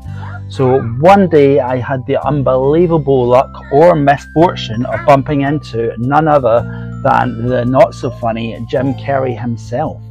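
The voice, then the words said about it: Slightly husky voice. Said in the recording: “my voice is starting to sound a bit husky”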